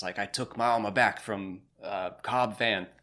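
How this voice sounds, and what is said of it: Imitates another person's voice. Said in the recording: “I'm trying my best to do like a Tamara Morrison accent, ... probably failing.”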